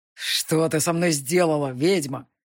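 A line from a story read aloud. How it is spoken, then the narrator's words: Demon's growl. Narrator (Russian): прорычал демон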